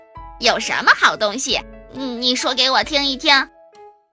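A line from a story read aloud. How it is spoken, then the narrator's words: Smiling. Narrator (Chinese): 艾摩笑着说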